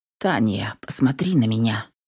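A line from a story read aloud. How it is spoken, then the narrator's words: Quiet request. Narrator (Russian): тихо попросил мой парень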